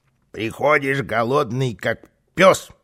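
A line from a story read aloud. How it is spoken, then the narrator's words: Grumbling. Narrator (Russian): ворчал Карлсон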